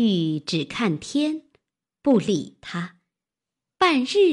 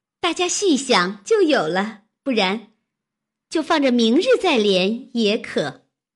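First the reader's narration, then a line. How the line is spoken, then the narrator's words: Laughing. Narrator (Chinese): 湘云笑道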